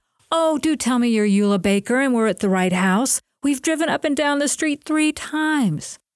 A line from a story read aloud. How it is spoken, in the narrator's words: a girlish voice exclaimed